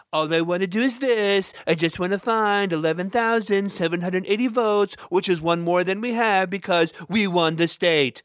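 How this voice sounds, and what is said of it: Poor Donald Trump impression. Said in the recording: “That's my shitty Donald Trump impression”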